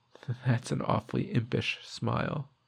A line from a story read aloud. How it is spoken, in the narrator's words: This makes me laugh and say